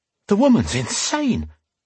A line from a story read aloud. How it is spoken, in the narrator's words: he thought wildly